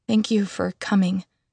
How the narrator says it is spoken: I finally managed to say, my voice still trembling

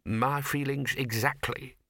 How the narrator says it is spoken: purred the bursar

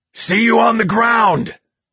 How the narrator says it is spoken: Greg shouts

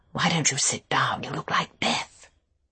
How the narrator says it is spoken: Beatrice whispered in my ear

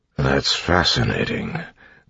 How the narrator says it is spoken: Clubs mumbled

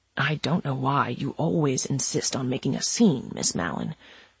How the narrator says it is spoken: Soper muttered in her ear as they struggled

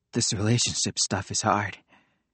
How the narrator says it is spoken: said Nico softly

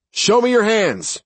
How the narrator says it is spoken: Mike shouted

